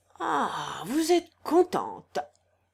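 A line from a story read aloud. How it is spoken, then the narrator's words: Tragicomic exclamation. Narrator (French): s'écria le chanoine d'un ton tragicomique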